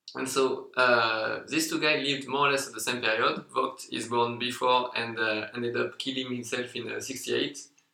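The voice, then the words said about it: French accent. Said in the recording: “It's hard enough with a French accent”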